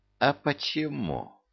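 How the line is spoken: Silky, ingratiating question. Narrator (Russian): вкрадчиво поинтересовался командир

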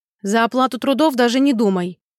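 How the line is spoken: Stern rebuke. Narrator (Russian): Строго одернула

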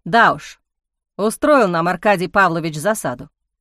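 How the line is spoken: Wry snort. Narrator (Russian): хмыкнул он

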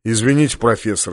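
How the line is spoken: Soft. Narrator (Russian): мягко сказал полубой

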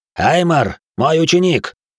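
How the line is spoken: Barked reply. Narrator (Russian): рявкнул в ответ

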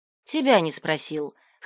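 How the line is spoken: Snort. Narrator (Russian): хмыкнул Илай

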